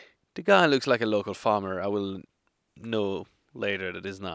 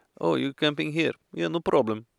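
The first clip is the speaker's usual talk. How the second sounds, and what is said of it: Exaggerated put-on foreign accent. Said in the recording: “I accentuate the accent. Really, it's not that bad.”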